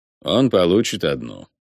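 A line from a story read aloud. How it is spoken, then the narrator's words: Eerily flat voice. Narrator (Russian): до жути ровным голосом сообщил Рока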